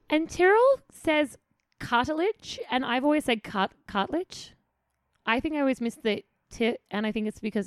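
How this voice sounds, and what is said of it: Australian accent. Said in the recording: “I'm lazy Australian accent.”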